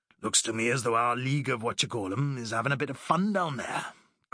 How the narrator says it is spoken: grunted Jenkins

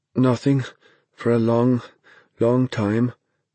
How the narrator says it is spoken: Dennis said in a halting voice

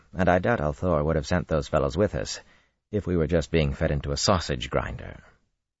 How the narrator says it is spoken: he told Duresin dryly

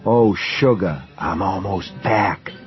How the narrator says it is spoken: she whispered in the dark

